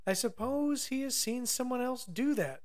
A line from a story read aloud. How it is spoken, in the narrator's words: sighed Noogumi